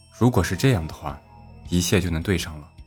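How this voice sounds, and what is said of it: Deliberately quiet, low voice. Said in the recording (Chinese): “他的声音因为刻意放的小声而显得低沉”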